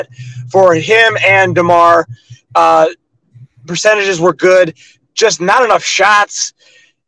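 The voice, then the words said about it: Hoarse, strained voice. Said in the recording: “You probably can't tell, but my voice is pretty shot. ... You're trying to yell from the 300 section?”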